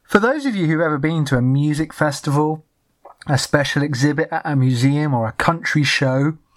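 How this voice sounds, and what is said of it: English accent. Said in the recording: “not some interloping English tourist, which my accent made me sound like.”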